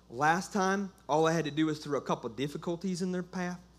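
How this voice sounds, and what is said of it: Devil voice with country accent. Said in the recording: “he has a country accent.”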